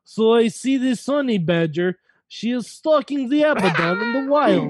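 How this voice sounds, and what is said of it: Fake Russian accent, documentary narration. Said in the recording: “I can fake an accent ... a nature documentary with a Russian accent guy narrating it”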